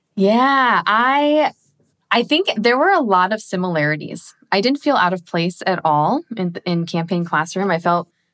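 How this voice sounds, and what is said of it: Noticeable non-American accent. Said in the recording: “aside from the accent. I'm sure that stood out like a sore thumb.”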